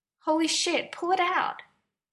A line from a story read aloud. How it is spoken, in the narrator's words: Stiles begged